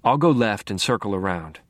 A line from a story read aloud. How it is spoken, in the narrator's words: I said